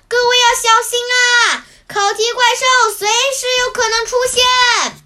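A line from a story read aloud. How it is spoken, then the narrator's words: Loud shout. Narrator (Chinese): 五柳先生大声喊道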